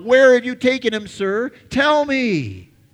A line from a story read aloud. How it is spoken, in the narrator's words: she blurts out